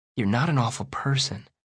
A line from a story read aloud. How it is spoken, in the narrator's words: I say softly